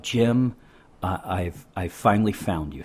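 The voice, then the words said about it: Sexy, seductive voice. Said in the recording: “that sexy voice”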